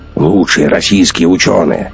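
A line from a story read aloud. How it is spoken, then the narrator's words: Snorted. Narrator (Russian): фыркнул Гумилев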